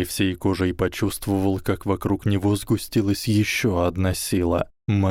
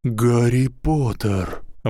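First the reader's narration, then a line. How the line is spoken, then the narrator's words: Breathless. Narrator (Russian): выдохнул директор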